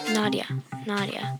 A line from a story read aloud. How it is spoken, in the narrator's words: Kiana whispered